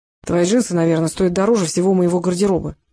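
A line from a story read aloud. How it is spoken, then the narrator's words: Grumbling. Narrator (Russian): проворчал Рыжков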